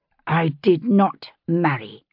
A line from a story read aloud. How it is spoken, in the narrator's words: she said through her teeth